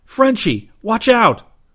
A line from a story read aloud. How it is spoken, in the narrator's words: He yelled